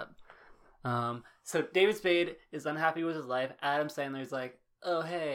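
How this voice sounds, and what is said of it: Usual voice. Nothing is said of it.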